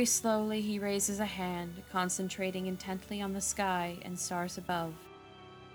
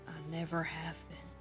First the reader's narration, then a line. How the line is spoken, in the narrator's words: he says softly